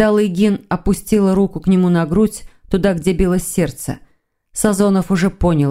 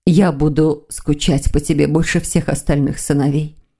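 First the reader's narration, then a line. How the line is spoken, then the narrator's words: Whisper. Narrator (Russian): прошептала Лилия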